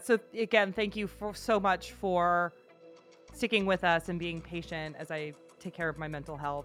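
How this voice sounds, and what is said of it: Thick Midwestern American accent. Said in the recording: “I have a very thick Midwestern accent this week”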